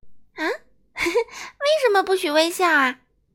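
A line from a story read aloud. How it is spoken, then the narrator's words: Laughing question. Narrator (Chinese): 阳光小姐大笑几声，问道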